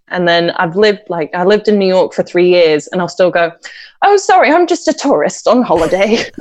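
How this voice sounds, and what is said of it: Speaks with a foreign accent. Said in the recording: “you still have the accent”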